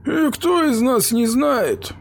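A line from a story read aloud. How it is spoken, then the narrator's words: Sighing. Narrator (Russian): вздохнул Якобсон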